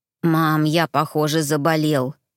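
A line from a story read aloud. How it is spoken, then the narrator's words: Child's hoarse guilty wheeze. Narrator (Russian): просипел сын виновато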